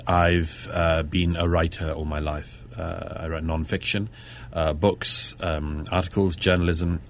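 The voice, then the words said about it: British London accent. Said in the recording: “As you can probably tell from my accent, it's a slight giveaway. ... I'm uh, from the UK. I'm from Britain uh, born and brought up in London”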